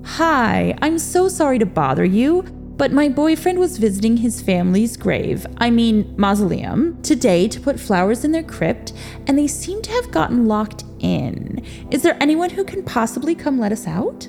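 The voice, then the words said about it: Polite phone voice. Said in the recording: “seamlessly transitioned into a perfect phone voice”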